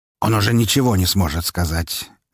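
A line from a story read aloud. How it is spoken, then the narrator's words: Icy tone. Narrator (Russian): ледяным тоном произнес Распутин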